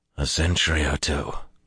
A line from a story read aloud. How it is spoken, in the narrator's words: Luz Theron laughed thickly in his head